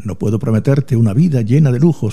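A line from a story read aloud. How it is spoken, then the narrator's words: Plain. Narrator (Spanish): dijo Adrián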